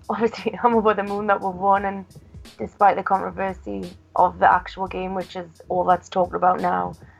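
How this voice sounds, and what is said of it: Slightly hoarse voice. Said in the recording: “I'm still a bit hoarse from yesterday”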